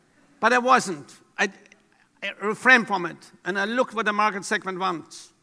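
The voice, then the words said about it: European-accented English. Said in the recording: “I have a European accent.”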